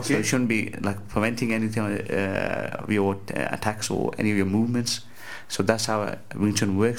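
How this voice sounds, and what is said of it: West Midlands English accent. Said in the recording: “Your accent kind of threw me off here... I'm from Walsall near Birmingham.”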